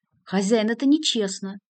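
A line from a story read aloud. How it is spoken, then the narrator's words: Indignant cry. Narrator (Russian): возмущенно вскричал Ларев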